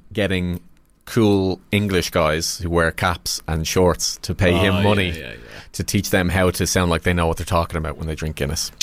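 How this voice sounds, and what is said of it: Irish accent. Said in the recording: “Someone with an Irish accent, i.e. me.”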